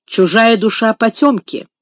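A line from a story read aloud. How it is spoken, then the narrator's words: Stern. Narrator (Russian): строго проговорила мисс Офелия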